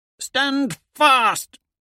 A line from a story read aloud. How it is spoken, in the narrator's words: I roar at my veterans